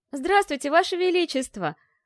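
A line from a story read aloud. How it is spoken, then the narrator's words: Joyful exclamation. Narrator (Russian): радостно воскликнула Ольга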